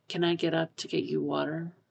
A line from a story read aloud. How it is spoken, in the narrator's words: Pisang murmurs